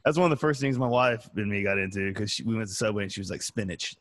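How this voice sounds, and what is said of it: Noticeable regional accent. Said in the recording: “Where the hell are you from with that accent?”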